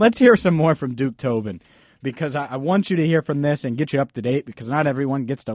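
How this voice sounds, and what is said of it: Usual voice. Nothing is said of it.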